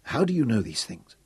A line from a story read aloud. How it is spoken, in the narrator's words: he whispered